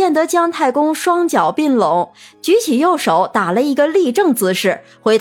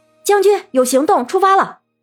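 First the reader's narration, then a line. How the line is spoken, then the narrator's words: Calling out. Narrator (Chinese): 文玉哥叫道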